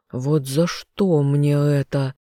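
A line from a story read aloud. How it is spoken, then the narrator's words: Grumbling. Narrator (Russian): пробурчал он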